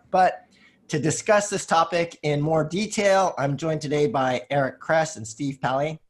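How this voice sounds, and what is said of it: Sick, rough-sounding voice. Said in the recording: “I'm a little bit sick today, which is why my voice is kind of screwed up”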